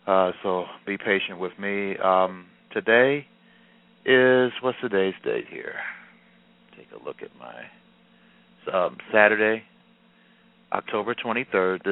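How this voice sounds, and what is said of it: Tired-sounding voice. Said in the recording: “I sound a little tired,”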